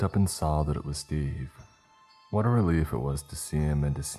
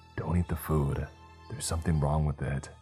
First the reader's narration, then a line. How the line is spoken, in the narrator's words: I whispered